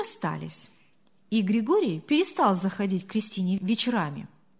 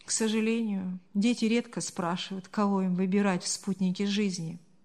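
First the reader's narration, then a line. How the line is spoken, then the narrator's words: Sighing. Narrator (Russian): вздохнул отец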